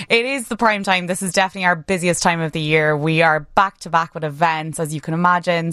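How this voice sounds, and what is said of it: Authentic Irish accent. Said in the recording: “I'm from Ireland. Originally, I haven't been practicing this accent. It is authentic.”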